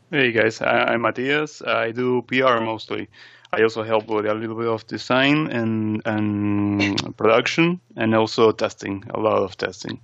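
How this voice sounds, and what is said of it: Noticeable accent. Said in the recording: “you have an awesome accent”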